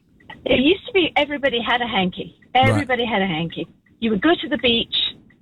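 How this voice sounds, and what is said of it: British accent. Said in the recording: “you're from the UK. ... With this accent, yes.”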